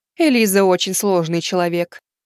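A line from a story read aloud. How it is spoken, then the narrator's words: Heavy sigh. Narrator (Russian): тяжело вздохнув, проговорила Аса Кайрини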